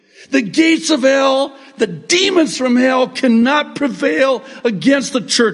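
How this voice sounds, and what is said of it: Yelling loudly. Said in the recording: “sorry I'm yelling.”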